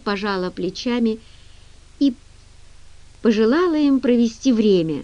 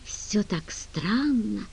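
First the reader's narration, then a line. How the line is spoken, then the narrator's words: Whisper. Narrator (Russian): прошептала Генри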